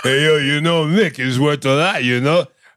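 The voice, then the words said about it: Gruff Mick from Rocky voice. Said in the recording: “If you put a little gruff on that, you become Mick from Rocky”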